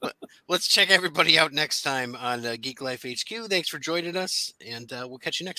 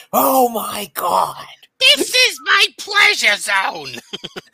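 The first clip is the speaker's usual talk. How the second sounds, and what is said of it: Shouted imitation of another person's voice. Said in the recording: “I'm shouting. ... you have to when you're doing Gilbert Godfrey.”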